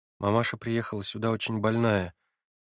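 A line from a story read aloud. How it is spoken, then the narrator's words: Quiet voice. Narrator (Russian): прибавила Нелли тихим голосом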